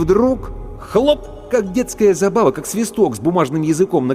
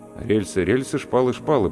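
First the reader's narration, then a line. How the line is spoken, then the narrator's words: Muttered. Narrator (Russian): пробормотал я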